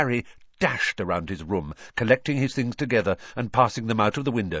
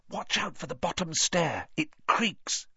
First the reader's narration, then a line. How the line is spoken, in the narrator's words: Harry whispered back